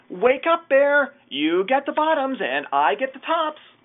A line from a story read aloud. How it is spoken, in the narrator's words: Hare called out